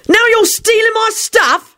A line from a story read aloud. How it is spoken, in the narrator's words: he shouted